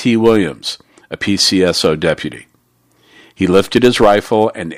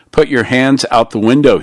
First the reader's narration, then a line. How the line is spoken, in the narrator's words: he said